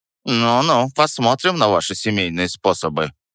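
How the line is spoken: Grumbling. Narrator (Russian): проворчал он

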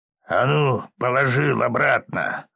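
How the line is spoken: Gruff bark. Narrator (Russian): рявкнул невидимый мне бандит

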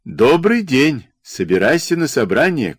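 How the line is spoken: Shouted. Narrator (Russian): крикнул высоколобый в овчинных штанах Бенедикт Гречка

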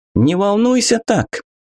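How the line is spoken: Shouted. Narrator (Russian): крикнула Анка

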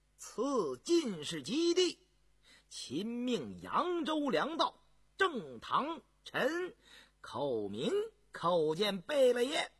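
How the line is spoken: Official's loud announcement. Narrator (Chinese): 一个官员高声报道

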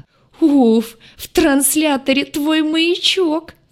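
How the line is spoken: Sobbing alien. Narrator (Russian): всхлипнул лагартианин

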